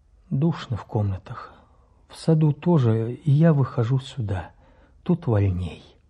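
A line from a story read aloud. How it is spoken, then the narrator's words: Tired. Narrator (Russian): Василий Степанович сказал устало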